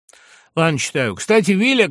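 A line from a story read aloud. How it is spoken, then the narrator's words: Shouting. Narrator (Russian): крикнул он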